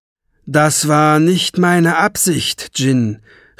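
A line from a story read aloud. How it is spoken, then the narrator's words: Calling upward. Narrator (German): rief Lung zu ihm hinauf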